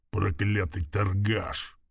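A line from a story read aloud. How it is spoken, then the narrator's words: Low growl. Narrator (Russian): прорычал орк тихо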